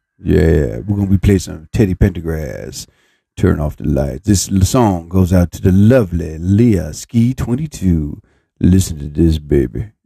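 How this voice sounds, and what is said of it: Put-on deep seductive voice. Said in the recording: “You like deep voice, baby. ... you like that voice, huh?”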